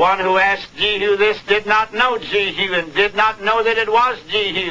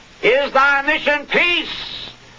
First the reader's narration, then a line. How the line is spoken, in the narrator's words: cried aloud